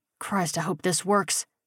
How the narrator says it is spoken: he muttered

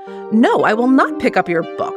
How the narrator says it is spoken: Jessica said indignantly

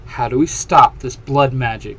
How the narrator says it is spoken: Clary says in a firm voice

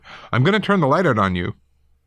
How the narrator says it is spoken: he shouted

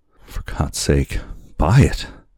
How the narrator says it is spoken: he cried

